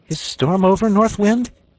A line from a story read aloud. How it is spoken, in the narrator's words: called out